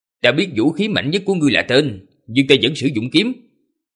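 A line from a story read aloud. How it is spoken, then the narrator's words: Cold. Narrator (Vietnamese): Gã lạnh lùng nói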